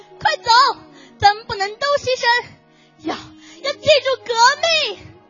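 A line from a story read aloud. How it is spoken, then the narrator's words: Loud. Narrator (Chinese): 他大声的说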